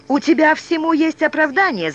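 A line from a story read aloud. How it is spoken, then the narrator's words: Shouting at someone. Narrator (Russian): закричал он на Артура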